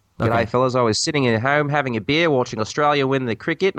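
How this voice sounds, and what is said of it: Put-on Australian accent. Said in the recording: “Down Under ... you want to do this in an accent”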